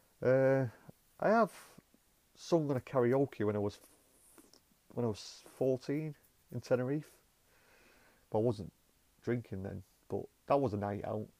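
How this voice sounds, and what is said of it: Gravelly northern English Bolton accent. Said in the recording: “you can probably hear from my voice, I've got a very gravelly, very northern Bolton accent”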